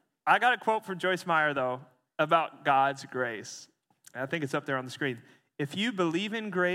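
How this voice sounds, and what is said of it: Usual voice. Nothing is said of it.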